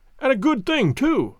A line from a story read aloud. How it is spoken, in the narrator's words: I cried